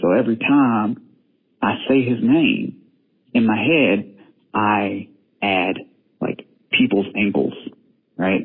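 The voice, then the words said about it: Regional accent, Melton sounds like melting. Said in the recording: “just listen to my accent. It sounds like I'm saying melting.”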